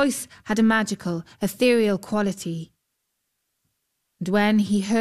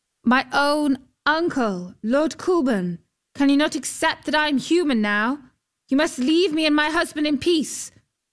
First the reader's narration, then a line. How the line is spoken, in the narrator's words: called out